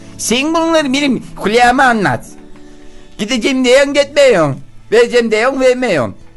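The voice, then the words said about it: Put-on Denizli regional Turkish accent. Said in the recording (Turkish): “Denizlili diliyle söylemişti ... Denizli aksanı yaptı.”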